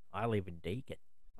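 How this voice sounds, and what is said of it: Put-on rural Australian accent. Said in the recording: “you got to say it with a rural Australian accent”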